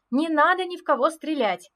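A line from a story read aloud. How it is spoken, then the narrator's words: Shouting. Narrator (Russian): крикнула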